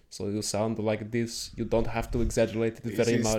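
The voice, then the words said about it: Deep voice, slightly German accent. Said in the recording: “the Arnold accent is almost like, it's a little bit German and you got to go deep with the voice”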